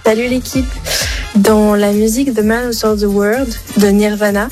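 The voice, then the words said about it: Showy, very good English accent. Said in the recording (French): “elle se la pète, elle avec son accent. Ouais, très bon accent anglais.”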